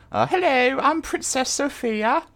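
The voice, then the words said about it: Put-on British accent. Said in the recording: “the British accents”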